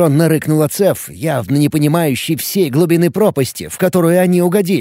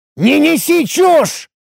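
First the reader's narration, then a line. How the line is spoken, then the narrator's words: Irritated roar. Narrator (Russian): Раздраженно взревел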